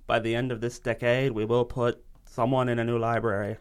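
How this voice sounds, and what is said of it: Bad JFK impression. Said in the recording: “my terrible JFK impression”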